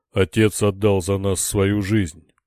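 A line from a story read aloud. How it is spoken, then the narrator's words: Mighty warrior's roar. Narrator (Russian): проревел богатырь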